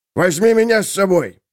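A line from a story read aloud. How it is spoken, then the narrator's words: Exclamation. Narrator (Russian): воскликнул он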